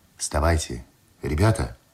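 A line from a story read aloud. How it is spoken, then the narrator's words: Quiet call. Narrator (Russian): тихо позвал Андреев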